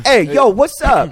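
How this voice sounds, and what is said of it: Put-on New York accent. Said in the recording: “That's a terrible God voice ... he's like a New York accent.”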